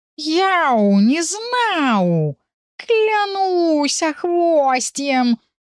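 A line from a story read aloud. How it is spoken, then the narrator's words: Crushed, yelling. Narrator (Russian): заорал морально уничтоженный черныш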